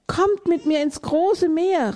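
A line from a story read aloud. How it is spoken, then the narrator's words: Cheerful call. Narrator (German): rief er ihnen munter zu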